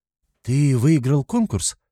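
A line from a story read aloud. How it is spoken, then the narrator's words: Excited asking. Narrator (Russian): взволнованно спрашивает Ира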